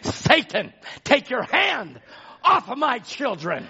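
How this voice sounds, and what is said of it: Raised, loud preaching voice. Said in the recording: “raised my voice”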